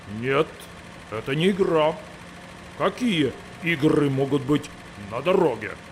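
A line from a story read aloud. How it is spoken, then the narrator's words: Menacing. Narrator (Russian): Сказал грозно трактор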